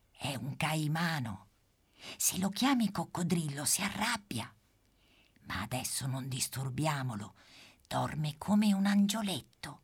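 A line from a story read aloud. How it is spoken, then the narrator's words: Whispered. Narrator (Italian): bisbiglia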